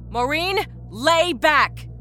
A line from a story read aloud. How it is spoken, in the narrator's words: Rita shouted